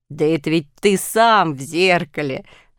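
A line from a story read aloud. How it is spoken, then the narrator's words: Laughing. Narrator (Russian): засмеялся Барбос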